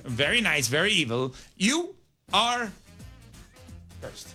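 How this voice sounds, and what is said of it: Danhausen impression. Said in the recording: “your impression”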